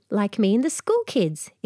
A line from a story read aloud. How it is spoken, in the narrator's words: exclaimed Adriana